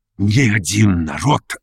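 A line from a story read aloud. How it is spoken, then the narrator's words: Recited as if reading. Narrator (Russian): начал он, как бы читая по строкам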